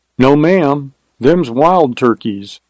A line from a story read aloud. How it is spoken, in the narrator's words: replied the driver